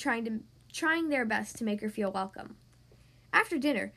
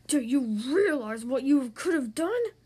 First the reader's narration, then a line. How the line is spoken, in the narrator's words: growled, growing angrier with every word